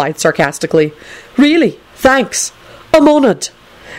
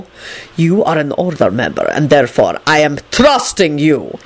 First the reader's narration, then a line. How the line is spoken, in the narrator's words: he replied in an extremely malevolent voice